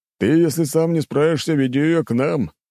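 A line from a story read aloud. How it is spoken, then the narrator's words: Chuckling from behind. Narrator (Russian): хохотнул за моей спиной Медведев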